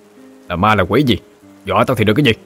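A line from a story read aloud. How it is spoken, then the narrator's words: Shouting. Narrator (Vietnamese): Gã quát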